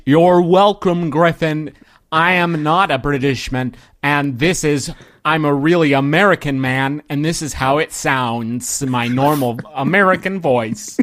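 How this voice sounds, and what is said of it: Put-on American accent. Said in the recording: “he's doing his great American accent”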